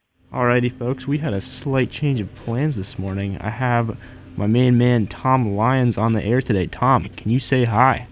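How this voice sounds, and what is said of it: Smooth buttery radio DJ voice. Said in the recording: “smooth, buttery radio voice”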